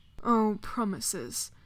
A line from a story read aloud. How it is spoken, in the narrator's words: Dorian murmured